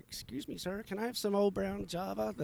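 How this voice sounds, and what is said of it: Pretty good put-on Irish accent. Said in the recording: “That's my Irish accent. ... That was pretty good.”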